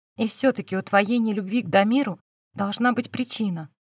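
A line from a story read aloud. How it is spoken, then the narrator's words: Soft call. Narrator (Russian): мягко позвал Фил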